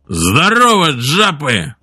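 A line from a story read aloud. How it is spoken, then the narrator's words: Loud bark. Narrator (Russian): Джерри гаркнул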